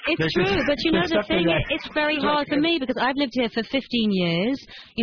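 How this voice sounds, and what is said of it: British accent. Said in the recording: “when it comes out of your mouth in the British accent”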